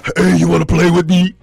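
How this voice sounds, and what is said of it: Put-on deep doll voice. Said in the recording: “You pull a string and a deep voice come out.”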